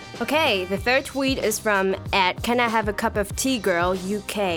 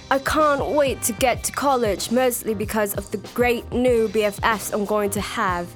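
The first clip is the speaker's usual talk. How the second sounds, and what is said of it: Put-on British accent. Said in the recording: “I have to read this in the British accent ... That was a great, great impression, really.”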